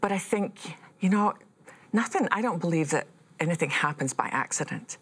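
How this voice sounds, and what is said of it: Speaks with a noticeable accent. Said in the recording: “who's that woman with a funny accent?”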